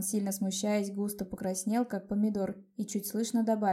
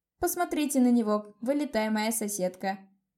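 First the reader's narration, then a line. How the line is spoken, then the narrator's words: Loud laughing. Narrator (Russian): захохотала я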